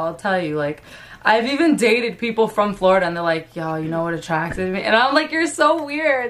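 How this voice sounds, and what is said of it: Brooklyn accent. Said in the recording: “Everybody always has something to say about my accent ... It's always nice to hear a Brooklyn accent.”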